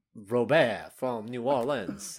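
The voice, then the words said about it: Put-on Cajun accent, fairly good. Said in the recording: “Do a Cajun accent. ... That's actually pretty good.”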